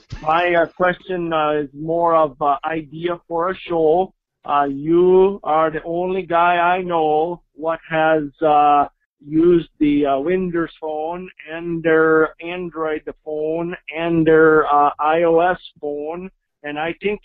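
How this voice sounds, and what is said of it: Bad fake accent, Mexican to Swedish. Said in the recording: “a terrible accent, by the way ... That accent went from, like, Mexican to, like, Swedish. Like, in a sentence.”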